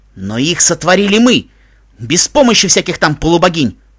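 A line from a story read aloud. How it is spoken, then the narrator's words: Barking. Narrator (Russian): рявкнул Майк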